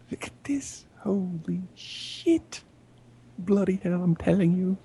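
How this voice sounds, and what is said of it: Wavering put-on British accent. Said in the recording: “My accent's like floating all over the goddamn...”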